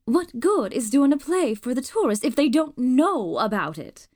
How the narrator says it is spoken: Aunt Maxie snapped back

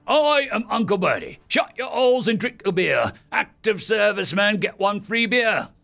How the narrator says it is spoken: excitedly said

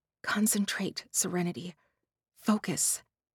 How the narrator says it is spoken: whisper

